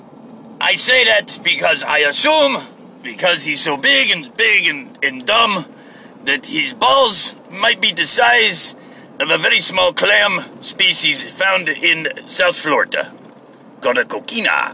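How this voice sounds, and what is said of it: Put-on fake accent, not very good. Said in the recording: “I'm sorry that I'm talking with this accent... I'm not in the mood to have my fake accent, so it's not panning out as well as I thought it would... I talk like this a lot when I'm feeling silly”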